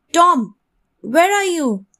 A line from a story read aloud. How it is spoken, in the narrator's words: Aunt Polly shouted angrily